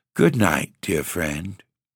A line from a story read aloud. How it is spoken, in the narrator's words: with a sigh, she murmured again